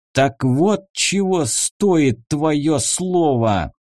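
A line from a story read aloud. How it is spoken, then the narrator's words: Through gritted teeth. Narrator (Russian): сквозь зубы процедил магистр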